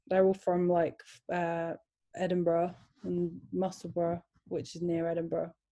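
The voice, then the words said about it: English accent, slightly unusual. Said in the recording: “I have a bit of a weird accent now ... will have English accents”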